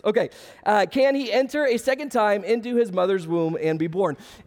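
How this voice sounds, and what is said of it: Hoarse, strained, fading voice. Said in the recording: “I told you I'm losing my voice.”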